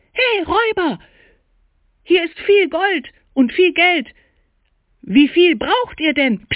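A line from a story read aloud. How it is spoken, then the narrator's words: Loud shout. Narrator (German): rief laut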